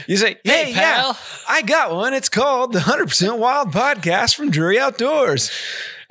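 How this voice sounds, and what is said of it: Bizarre exaggerated announcer voice. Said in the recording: “are you having a stroke right now? Your voice sounds awfully bizarre. ... That's my announcer voice”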